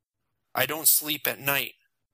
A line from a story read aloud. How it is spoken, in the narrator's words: Jason said, a little more firmly than he intended